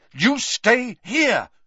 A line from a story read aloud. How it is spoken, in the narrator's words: Harry repeated angrily